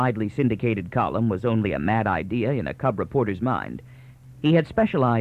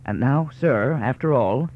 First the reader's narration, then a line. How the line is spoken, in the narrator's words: The husky telephotographer of the observatory, Binet 25, interposed nervously